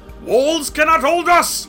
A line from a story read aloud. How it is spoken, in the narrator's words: roared